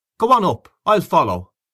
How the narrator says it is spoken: called out Gabriel from the dark

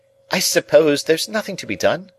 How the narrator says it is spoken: exclaimed Camilla

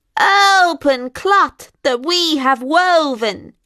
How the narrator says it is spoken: screeched the witches

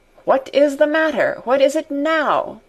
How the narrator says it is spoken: his old man's voice cried sternly

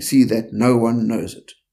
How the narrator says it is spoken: Yeshua sternly warned them, saying

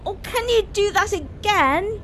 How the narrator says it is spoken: Gabriel was laughing his head off and asked

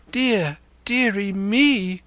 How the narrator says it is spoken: cried my mother

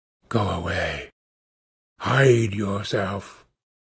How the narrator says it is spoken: said, in that profound tone

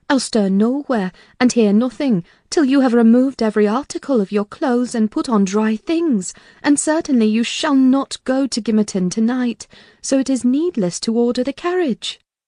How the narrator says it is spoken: exclaimed

